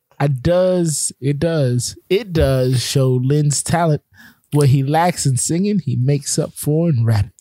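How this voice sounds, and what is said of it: Imitates another person's voice, Southern-sounding. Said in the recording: “my Brian Kelly impersonation ... are you a Southern woman?”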